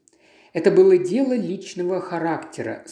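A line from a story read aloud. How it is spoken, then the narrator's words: Plain. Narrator (Russian): сказал Эркюль Пуаро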